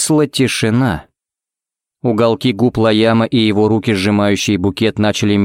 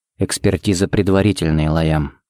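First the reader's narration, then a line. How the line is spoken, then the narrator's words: Quiet. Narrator (Russian): сказал он тихо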